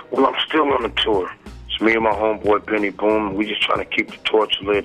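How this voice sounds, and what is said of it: Strained, worn-out voice. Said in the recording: “excuse my voice, man. I've been on tour. I blew a fuse at the last stop we did”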